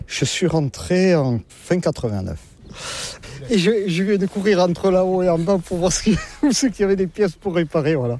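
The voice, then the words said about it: Southwestern French Landes accent. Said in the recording (French): “comme vous l'entendez, je ne suis pas de la région ... Avec mon accent, je ne suis pas du nord de la Loire, non. Je suis des Landes”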